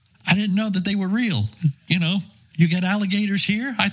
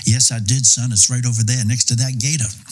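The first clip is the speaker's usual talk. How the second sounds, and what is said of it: Classy Southern US accent. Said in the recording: “in his great classy Charleston Southern accent”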